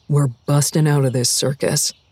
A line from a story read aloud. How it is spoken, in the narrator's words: Karen whispered